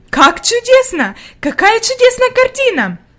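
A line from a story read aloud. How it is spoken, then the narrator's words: Exclaimed. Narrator (Russian): воскликнула она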